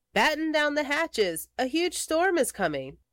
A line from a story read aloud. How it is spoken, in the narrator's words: Henry cried